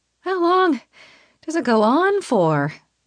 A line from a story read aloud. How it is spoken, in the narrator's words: I wheeze